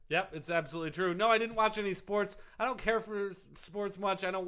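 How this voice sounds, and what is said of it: Usual voice. Nothing is said of it.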